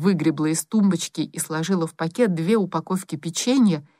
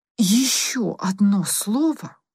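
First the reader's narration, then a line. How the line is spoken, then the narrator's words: Threatening hiss. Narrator (Russian): угрожающе прошипела она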